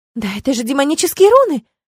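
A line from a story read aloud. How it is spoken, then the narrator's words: Delighted squeaky exclamation. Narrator (Russian): воскликнула Кэсси, выдохнула, чуть ли не попискивая от восторга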